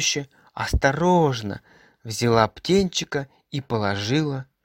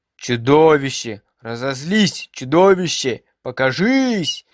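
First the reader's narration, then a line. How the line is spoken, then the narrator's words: Excited yelling children. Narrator (Russian): вопили ребята, удивленные тем, что чудовище так долго не показывается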